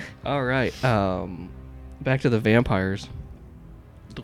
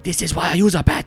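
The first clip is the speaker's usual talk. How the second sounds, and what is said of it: French accent. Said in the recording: “It's a French accent.”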